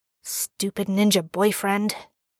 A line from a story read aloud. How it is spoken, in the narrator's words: Jared mutters